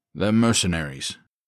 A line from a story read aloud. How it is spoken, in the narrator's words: Dante said flatly